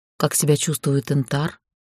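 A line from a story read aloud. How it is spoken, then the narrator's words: Quiet question. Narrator (Russian): спросила негромко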